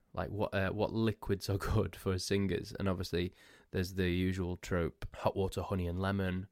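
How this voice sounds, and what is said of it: Hoarse, congested voice. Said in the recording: “losing my voice, being all bunged up”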